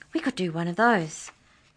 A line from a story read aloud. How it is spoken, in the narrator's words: Keisha exclaimed